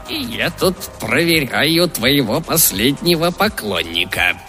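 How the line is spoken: Creaky voice. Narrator (Russian): проскрипел голос из-под капюшона

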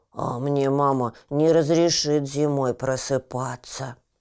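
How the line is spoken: Sighing young badger. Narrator (Russian): вздохнул барсучок

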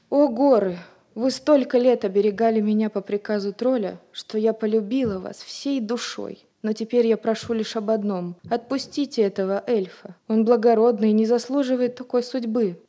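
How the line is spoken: Pleading. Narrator (Russian): взмолилась Рози

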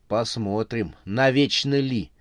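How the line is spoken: Young woman, through gritted teeth. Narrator (Russian): процедила сквозь зубы молодая женщина

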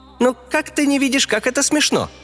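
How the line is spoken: Joyful reply. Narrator (Russian): радостно ответил Рёня

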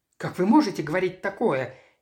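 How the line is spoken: Frightened exclamation. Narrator (Russian): испуганно воскликнула Шерон

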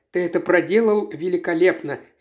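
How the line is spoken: Plain. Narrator (Russian): сказала она

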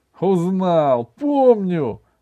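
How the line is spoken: Joyful answer. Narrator (Russian): радостно ответил Иван

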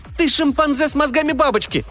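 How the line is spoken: Shouted. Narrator (Russian): крикнула

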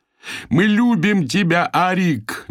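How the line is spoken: Frenzied yell. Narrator (Russian): безумно завопил

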